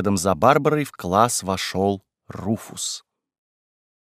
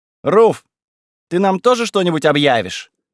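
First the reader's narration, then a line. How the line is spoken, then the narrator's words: Loud question. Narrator (Russian): громко поинтересовалась Верона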